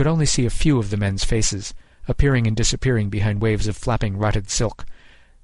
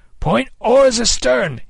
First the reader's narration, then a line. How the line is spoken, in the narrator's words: he cried